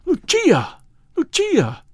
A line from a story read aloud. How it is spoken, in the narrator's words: I cried